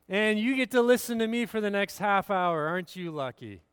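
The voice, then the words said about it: Sarcastic tone. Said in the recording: “That was sarcasm if you missed it. Those that started clapping, they missed the sarcasm there.”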